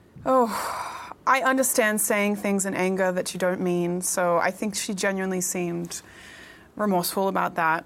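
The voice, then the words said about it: Speaks with a noticeable accent. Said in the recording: “with that accent.”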